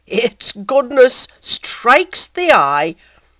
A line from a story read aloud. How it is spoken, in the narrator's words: the ecclesiastic, with a thick laugh